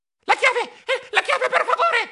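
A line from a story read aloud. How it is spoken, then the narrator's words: Breathless shout. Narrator (Italian): gridai affannato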